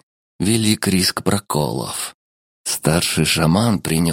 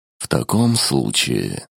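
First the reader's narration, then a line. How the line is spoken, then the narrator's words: Sighing. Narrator (Russian): вздохнул Михаэль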